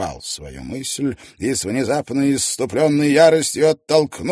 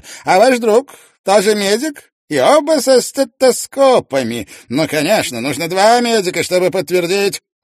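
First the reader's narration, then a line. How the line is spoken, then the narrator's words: Sudden loud question. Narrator (Russian): Вдруг он громко поинтересовался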